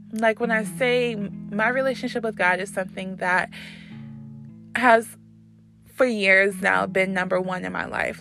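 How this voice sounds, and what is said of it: Emotional, wavering voice. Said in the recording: “getting emotional”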